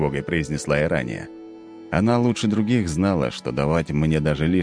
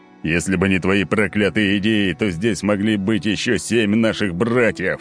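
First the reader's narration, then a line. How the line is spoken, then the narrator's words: Barking, angry. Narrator (Russian): рявкнул Олимпий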